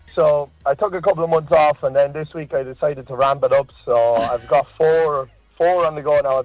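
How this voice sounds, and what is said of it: Noticeable regional accent. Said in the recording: “you got quite the accent there”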